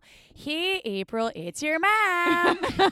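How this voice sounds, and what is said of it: Put-on Midwest American accent. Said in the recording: “I'm busting my Midwest accent out just so you guys can get ready for my mom ... say give us a sentence of your accent ... This is like when she leaves me a voicemail”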